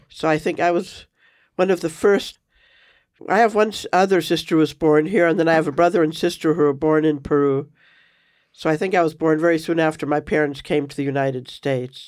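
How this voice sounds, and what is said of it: Foreign accent from immigrant parents. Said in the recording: “influenced your accent at all? ... Oh, yes. I think I got the accent from my parents.”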